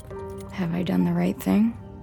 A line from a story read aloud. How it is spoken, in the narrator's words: whisper